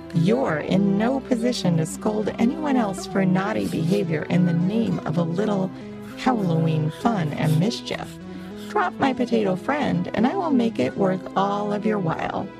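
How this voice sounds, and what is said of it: Persuasive character voice. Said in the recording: “in a persuasive voice”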